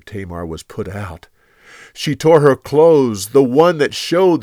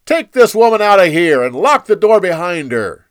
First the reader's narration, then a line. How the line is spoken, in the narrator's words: He shouted for his servants